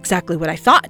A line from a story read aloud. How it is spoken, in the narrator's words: said triumphantly